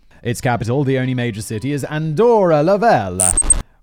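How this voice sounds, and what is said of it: Bad put-on Italian accent. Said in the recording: “Why am I doing an Italian accent? ... my terrible accent.”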